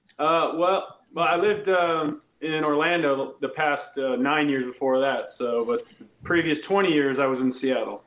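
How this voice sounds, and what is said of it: Slight Georgia Southern drawl. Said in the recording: “I hear an accent ... I can hear that like Georgia accent ... I'm noticing the draw is starting to starting to come back a little bit”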